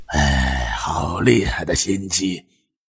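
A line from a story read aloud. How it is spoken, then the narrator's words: Sighing. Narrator (Chinese): 东国雄叹声道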